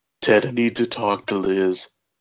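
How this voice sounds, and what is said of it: Imitates another person's voice, poorly. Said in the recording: “my terrible Arnold impression”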